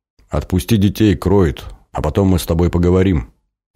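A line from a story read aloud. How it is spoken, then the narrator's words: Calm request. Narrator (Russian): спокойным голосом попросил Сан Саныч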